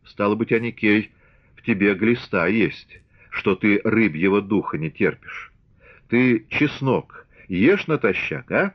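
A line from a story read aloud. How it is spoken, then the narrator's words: Calm, thoughtful. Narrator (Russian): раздумчиво, спокойно говорил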